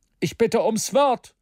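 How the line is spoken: Called out. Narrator (German): rief J

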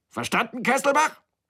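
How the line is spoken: Shouting. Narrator (German): schrie er

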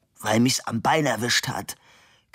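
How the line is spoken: Man growling. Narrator (German): knurrte der Mann

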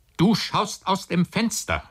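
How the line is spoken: Calling out. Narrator (German): rief der Onkel

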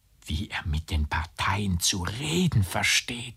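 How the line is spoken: Girl whispering. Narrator (German): flüsterte das Mädchen

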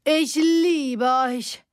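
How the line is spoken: Calling out. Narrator (German): rief sie

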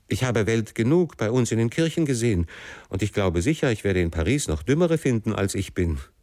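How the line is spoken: Called out again. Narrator (German): rief ich wieder

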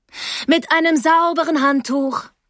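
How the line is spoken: Calling down hallway. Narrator (German): rief sie mir durch den Flur hinterher

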